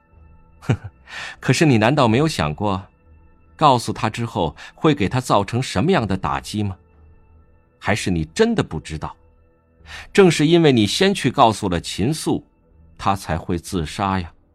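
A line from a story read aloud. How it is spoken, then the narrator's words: With a smile. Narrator (Chinese): 魏无羡笑了笑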